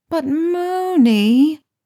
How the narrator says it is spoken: Harry whined, reluctantly

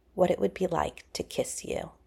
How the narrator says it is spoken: said softly

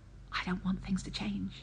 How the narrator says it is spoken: he whispered

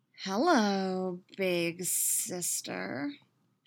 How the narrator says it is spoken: she drawls, a sick smirk on her lips

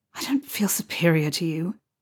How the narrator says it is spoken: Harry muttered in reply, the words coming out breathy

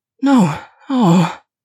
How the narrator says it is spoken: groaned

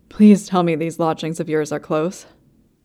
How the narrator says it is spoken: gasps

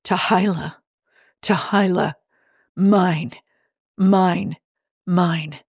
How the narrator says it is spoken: murmuring over and over in his mind

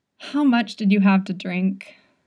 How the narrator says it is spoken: He sighed

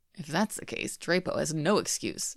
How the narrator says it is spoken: Hayden mutters

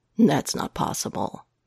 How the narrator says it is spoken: Matt says flatly

